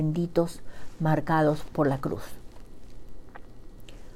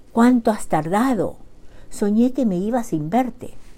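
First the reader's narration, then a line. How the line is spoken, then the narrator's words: Young man's exclamation. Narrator (Spanish): exclamó el joven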